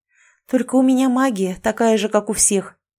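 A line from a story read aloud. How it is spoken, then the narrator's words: Disappointed sigh. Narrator (Russian): вздохнула я, чувствуя разочарование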